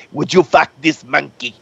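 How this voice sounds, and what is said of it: Deep put-on Israeli accent. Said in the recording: “in that deep Israeli accent”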